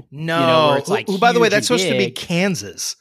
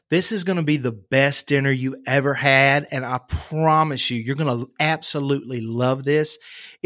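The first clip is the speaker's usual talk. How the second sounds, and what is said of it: Put-on Georgia Southern accent. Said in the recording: “Southern, when you go to Georgia, it's right here”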